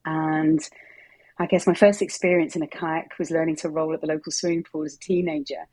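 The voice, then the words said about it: Southern English accent. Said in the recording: “You can tell from my accent, this is not where I'm from originally... the south of England”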